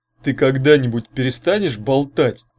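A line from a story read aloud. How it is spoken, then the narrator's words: Exasperated grumble. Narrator (Russian): не выдержав, проворчал Урк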